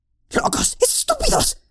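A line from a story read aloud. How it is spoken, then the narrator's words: Hissed. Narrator (Spanish): siseó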